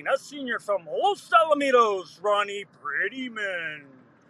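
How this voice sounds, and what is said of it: Imitates a sports announcer's voice. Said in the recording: “Poor imitation, I know ... Solid impersonation of Chris Albaugh, the great voice of the Titans.”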